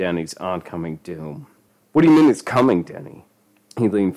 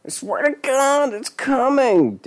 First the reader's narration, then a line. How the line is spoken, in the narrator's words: Denny pleaded